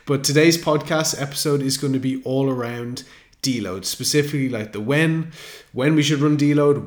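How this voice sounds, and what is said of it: Unwell-sounding voice. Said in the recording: “I'm a little bit under the weather today. You might be able to hear it in my voice”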